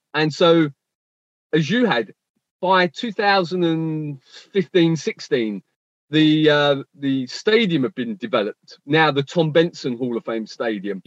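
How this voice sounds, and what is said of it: Mixed Australian-British accent. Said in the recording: “the Australian come British accent and they realize you are from England”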